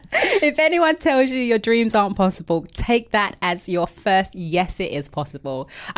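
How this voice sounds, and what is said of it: East End London accent. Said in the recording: “I've got an accent. Yes, I know I've got an accent. I'm from the East End of London”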